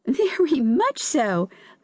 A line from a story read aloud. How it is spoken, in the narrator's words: laughed the seaweed